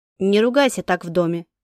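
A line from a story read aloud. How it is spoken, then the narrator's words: Stern warning. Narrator (Russian): строго пригрозил пальцем отец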